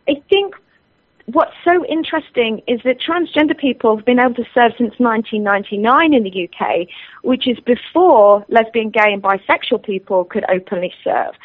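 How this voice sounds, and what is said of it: Strong British accent. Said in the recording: “I actually have not lived in the UK since 1998. I know that my accent is still pretty strong”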